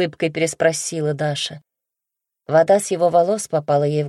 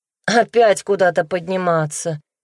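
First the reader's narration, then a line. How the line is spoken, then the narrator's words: Displeased sigh. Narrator (Russian): недовольно вздохнула Даша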